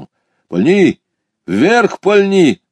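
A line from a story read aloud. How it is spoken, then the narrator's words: Urgent shout. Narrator (Russian): крикнул мне товарищ, пятясь за дерево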